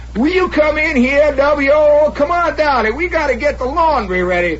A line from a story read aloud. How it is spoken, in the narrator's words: Or does she keep hollering